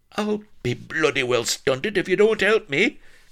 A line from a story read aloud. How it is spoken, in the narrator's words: cried Blood